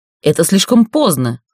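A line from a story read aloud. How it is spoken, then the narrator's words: Exclaiming. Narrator (Russian): воскликнул король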